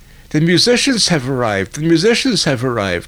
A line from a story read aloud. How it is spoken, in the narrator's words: he cried